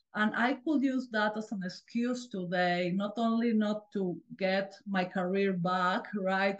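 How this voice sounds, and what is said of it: Non-native English accent. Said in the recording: “I came here as an immigrant. I still have an accent”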